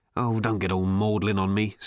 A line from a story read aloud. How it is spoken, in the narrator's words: snapped Ford